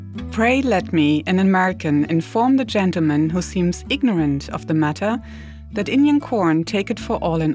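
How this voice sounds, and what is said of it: Imitated historical voice, German accent. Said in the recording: “my best Ben Franklin impersonation ... Benjamin Franklin with a German accent”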